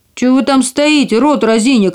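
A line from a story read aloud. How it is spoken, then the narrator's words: Angry dwarf shouting. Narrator (Russian): крикнул карлик, и его землистое лицо побагровело от злости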